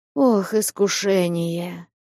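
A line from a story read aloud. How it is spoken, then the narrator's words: Deep sigh. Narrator (Russian): глубже прежнего вздохнул Василий Борисович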